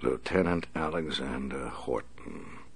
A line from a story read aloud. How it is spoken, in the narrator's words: the Batman said softly